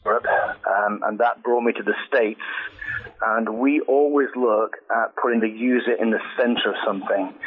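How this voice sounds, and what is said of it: English accent. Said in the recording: “I'm English. You can tell from the accent”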